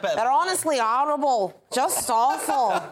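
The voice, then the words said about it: Put-on Manchester accent. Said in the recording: “That Manchester accent. ... Your accent's better. ... That's not bad, actually. I couldn't do any better.”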